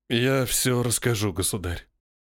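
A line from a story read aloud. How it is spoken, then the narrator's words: Hollow, muffled voice. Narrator (Russian): глухим голосом сказал Разумовский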